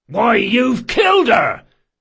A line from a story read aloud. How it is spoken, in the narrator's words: shouted the eldest barkeeper